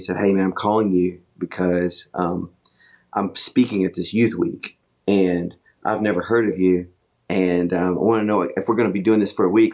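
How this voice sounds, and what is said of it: Deep voice. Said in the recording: “it's this deep voice on the phone”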